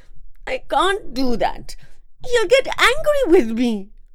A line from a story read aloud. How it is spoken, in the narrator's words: Paro cried